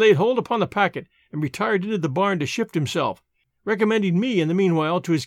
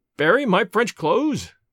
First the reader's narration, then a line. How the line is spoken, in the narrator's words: cried Alan